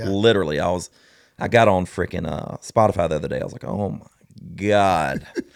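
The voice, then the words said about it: Deep Southern US accent. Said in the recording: “my voice being this deep Southern accent country boy”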